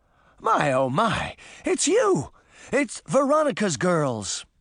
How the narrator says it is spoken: the white-bearded leader of the group cried out

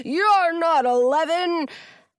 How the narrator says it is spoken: bellow

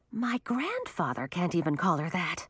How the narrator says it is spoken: Millie whispered to Audun

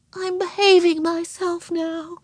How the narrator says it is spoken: she said meekly

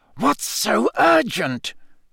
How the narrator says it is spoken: Snape hiss at Karkaroff

